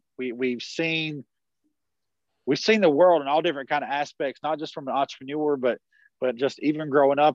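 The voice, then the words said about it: Southern US country accent. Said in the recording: “We're still boys from what's called Blue Ridge, South Carolina. It's at the bottom of the Blue Ridge Mountains. It's the country. That's why you hear this accent right now too.”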